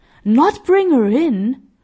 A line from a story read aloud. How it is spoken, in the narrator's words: exclaimed the kind-hearted man